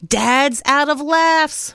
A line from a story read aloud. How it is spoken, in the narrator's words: Mom shouted